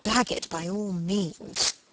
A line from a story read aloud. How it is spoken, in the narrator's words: murmured Margaret